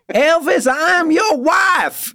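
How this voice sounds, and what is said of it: Put-on accent. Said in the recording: “put on that accent”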